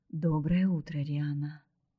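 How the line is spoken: Calm greeting. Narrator (Russian): спокойно поздоровался Дмитрий

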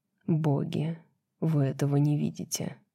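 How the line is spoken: Whisper. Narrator (Russian): шепнул Хант

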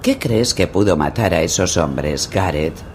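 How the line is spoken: Casual, unconcerned tone. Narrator (Spanish): preguntó Sir Waimar en tono despreocupado

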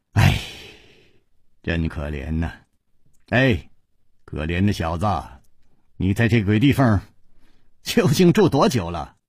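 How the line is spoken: Sighing. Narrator (Chinese): 楚留香忍不住叹道

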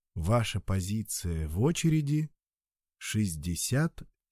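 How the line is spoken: Calm announcement. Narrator (Russian): сообщали они спокойным голосом

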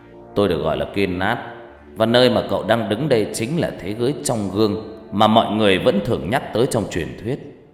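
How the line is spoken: Smiling. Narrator (Vietnamese): Người đàn ông này mỉm cười

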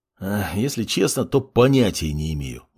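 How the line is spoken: Mage sighing. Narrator (Russian): вздохнул маг

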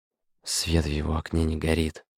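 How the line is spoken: Hoarse rasp. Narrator (Russian): прохрипела Аркашка

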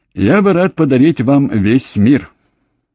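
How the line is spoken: Laughing joyfully. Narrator (Russian): радостно засмеялась

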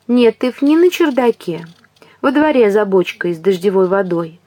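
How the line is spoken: Feigned sweetness. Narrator (Russian): сообщила она притворно ласковым голосом

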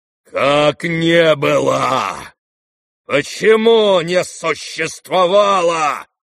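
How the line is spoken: Menacing angry outburst. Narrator (Russian): грозно вскинулся он на сына

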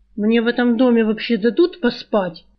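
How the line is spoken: Gloomy, angry question. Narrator (Russian): мрачное зло спросил из-под потолочной темноты саврянин

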